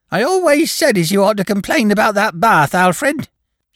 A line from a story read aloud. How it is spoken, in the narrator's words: she said suddenly, in the high, piping voice peculiar to the deaf